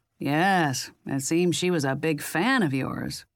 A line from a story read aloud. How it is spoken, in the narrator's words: Jack said sarcastically